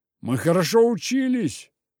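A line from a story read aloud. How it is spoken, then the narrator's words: Offended. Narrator (Russian): обиженно заявил Венька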